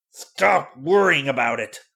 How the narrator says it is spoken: snarled Grant Whitcomb, in a tone that Marge had never heard him use before

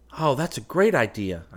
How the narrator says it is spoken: I cried

